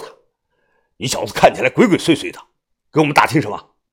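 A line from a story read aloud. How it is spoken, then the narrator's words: Cold voice. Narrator (Chinese): 于哥冷声的说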